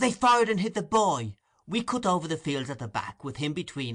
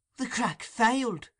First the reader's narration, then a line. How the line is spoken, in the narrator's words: said Toby faintly